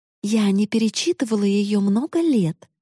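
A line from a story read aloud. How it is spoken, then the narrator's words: Mother joyfully continuing. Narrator (Russian): радостно продолжала мама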